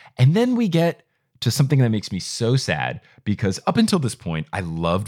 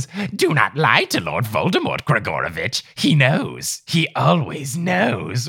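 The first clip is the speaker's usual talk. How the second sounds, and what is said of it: Voldemort impression. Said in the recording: “good your Voldemort impression”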